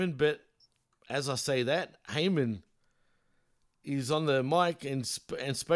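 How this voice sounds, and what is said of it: Usual voice. Nothing is said of it.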